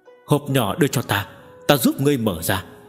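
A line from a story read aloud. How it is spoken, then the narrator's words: Breathless after coughing. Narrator (Vietnamese): Tề Kiều Nghi ho khan một hồi, sau đó dễ chịu hơn một ít, thở hổn hển nói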